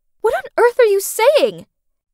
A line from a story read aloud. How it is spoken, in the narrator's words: Siren shouted